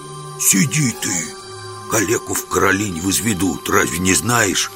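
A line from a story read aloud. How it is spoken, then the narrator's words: Hissing. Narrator (Russian): прошипел Жихарь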